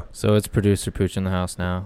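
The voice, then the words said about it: Flat, monotone, sad-sounding voice. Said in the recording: “why do you sound so sad to be here?... Is my voice really monotone?... Just a little.”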